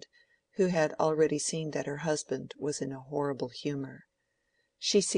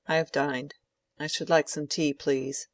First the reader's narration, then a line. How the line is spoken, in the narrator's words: said Lydgate curtly